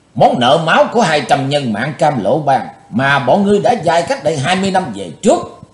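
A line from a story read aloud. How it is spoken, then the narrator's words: Hissed through clenched teeth. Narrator (Vietnamese): Chí Tôn rít qua, hai hàm răng cắn chặt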